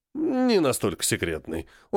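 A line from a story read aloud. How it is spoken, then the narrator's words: Snorting chuckle. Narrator (Russian): хмыкнул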